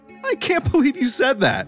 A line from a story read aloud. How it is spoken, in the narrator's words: David said between tears of laughter